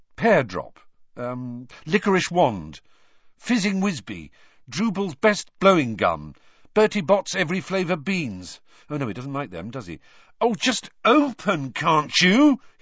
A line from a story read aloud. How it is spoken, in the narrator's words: he said angrily